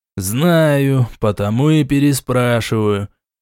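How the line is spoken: Grumbled thoughtfully. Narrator (Russian): проворчал король, задумчиво

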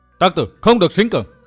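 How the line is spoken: Shout from above. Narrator (Vietnamese): trên không có tiếng người quát

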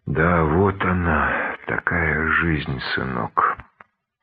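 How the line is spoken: Heavy sighing. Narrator (Russian): И, вздохнув, тяжело добавил

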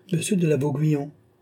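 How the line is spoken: Impatient king exclaiming. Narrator (French): s'écria le roi qui commença à s'impatienter

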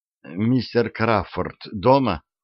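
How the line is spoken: Frightened trembling question. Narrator (Russian): Дрожащим голосом, в котором даже на расстоянии чувствовался испуг, Сьюзан вдруг спросила

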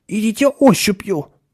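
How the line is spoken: Tense advice. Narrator (Russian): напряженным голосом посоветовал Ширин

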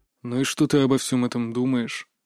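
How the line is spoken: Quiet question. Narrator (Russian): тихо спросил его величество

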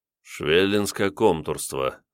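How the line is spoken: Thoughtful drawl. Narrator (Russian): задумчиво протянул

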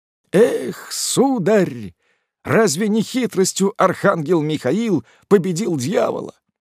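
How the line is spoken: Weak moan. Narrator (Russian): Спиагудри простонал слабым голосом

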